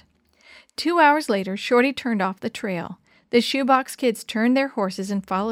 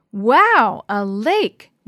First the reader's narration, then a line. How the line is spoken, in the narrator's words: Willie exclaimed when he saw the crystal blue water surrounded by tall pine trees